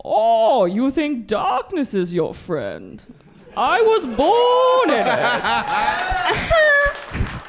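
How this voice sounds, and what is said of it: Bane impression. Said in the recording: “Bane is an impression ... That's your go-to impression, Bane.”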